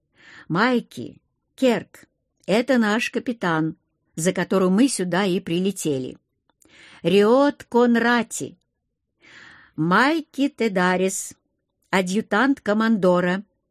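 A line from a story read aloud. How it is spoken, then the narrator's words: Crisp, clipped delivery. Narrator (Russian): отчеканил парень, мысленно вздохнув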